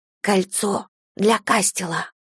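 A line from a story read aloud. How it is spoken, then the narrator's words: Whispered. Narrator (Russian): прошептала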